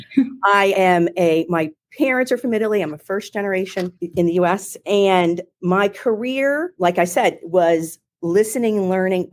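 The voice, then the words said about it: Philadelphia accent. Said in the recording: “I'm from Philadelphia, if you can't tell by my accent.”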